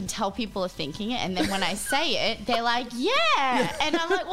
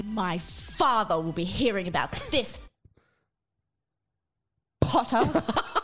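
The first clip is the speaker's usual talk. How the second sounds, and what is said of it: Malfoy character impression. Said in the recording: “do a Malfoy impression?”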